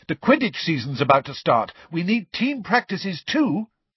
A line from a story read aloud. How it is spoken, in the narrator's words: Angelina, however, said quickly